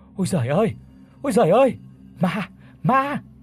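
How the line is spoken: Screaming old woman. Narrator (Vietnamese): Vừa hét lên, bà tôi

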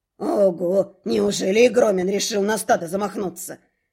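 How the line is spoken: Quiet snort. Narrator (Russian): Негромко хмыкнул Руинс

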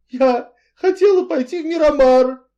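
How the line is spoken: Sobbing. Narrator (Russian): рыдала миссис Ривз

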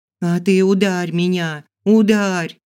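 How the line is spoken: Screamed at top of lungs. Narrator (Russian): Завопила во все горло

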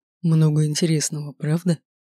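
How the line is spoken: Hoarse. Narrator (Russian): Хрипло обратился

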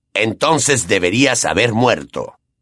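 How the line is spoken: Roaring bellow. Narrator (Spanish): bramó Black

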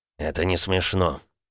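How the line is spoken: Grumbling mutter. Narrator (Russian): буркнул Дерешев

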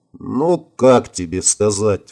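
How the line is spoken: Sighed. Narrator (Russian): вздохнул он

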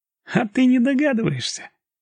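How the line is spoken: Gloating giggle. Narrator (Russian): хихикнул он злорадно

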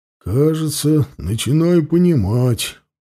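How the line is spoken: Mutter. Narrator (Russian): пробормотал Ауранг

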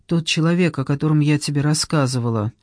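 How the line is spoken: Sigh. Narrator (Russian): она вздохнула

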